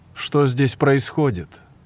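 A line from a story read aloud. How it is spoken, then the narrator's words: Exclaiming. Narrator (Russian): воскликнул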